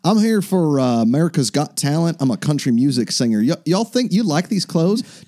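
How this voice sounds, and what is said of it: Put-on southern accent. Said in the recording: “he had like a southern accent.”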